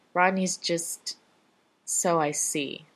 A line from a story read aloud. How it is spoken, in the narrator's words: the man says angrily and sighs